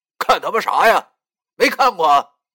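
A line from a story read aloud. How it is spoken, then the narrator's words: Angry shout. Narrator (Chinese): 他好像正在气头上，就对我俩喊道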